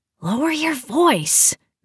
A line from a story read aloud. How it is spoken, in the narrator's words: Michelle hissed